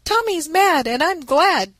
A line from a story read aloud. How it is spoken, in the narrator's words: cried Ned